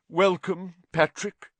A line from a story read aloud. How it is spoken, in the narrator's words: said Nick stiffly